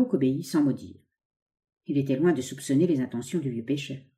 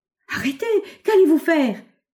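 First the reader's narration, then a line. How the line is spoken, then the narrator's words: Terrified exclamation. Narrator (French): s'écria Barouk avec épouvante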